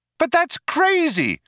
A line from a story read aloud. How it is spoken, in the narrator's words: cried Trillian